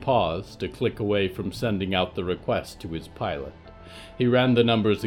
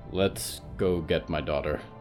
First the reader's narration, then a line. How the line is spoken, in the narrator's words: he sighed